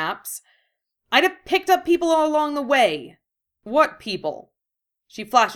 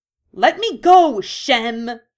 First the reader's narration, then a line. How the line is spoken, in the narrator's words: She snaps